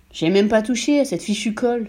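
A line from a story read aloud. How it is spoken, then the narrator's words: Exclaiming. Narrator (French): s'exclama M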